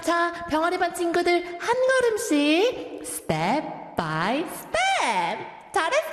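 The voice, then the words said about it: Kindergarten teacher voice addressing children. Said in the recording (Korean): “Big respect to all the kindergarten teachers. ... 이 목소리로 한 6시간 이렇게 떠드시는 거 아니에요?”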